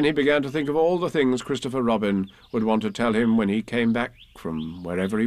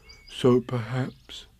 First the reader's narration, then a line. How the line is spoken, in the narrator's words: he said sadly to himself